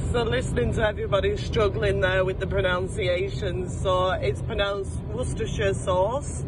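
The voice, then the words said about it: Speaks with a noticeable accent. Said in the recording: “I love your accent. ... I love her accent.”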